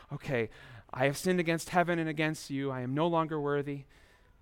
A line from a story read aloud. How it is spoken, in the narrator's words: muttering over your lines to yourself